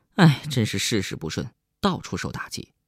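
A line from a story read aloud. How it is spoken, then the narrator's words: Mournful sigh. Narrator (Chinese): 何建飞哀叹一声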